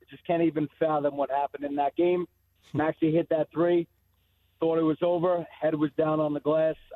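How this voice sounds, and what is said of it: Hoarse, strained voice. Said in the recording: “As you could tell, losing my voice,”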